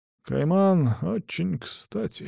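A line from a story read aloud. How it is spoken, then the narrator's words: Mumbled in a trance. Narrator (Russian): снова впадая в транс, бормочет санитарный врач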